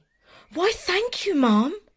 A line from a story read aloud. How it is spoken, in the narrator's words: exclaimed Jack